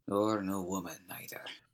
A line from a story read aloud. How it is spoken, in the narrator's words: Shadwell grumbled